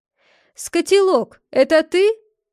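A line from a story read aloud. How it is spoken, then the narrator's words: Shouted. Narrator (Russian): крикнул Биль Белоручка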